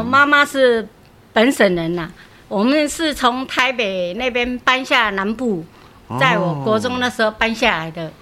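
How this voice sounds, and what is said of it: Accent not like local Taiwanese. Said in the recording (Chinese): “你的口音有点不太像台湾在地人呢”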